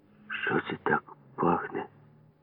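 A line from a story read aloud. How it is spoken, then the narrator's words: Quiet question. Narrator (Ukrainian): тихо спитав мене Ява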